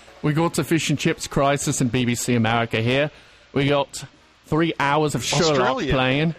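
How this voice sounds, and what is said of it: Put-on British accent drifting Australian. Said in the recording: “Try that story in a British accent ... He went Australian there.”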